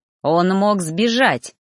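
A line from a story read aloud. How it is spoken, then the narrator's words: Irritated hiss. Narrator (Russian): продолжал шипеть Ноон, находясь явно не в настроении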